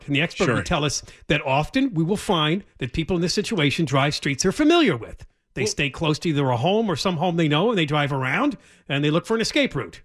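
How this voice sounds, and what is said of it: Imitates an expert commentator. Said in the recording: “good imitation of an expert”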